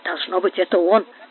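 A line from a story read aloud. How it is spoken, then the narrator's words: Muttering. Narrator (Russian): бормотал Тристани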